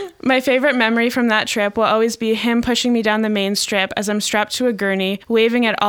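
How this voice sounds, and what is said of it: Usual voice. Nothing is said of it.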